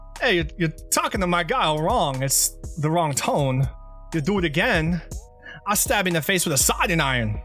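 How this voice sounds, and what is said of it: Christopher Walken impression. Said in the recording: “my Christopher Walken impression”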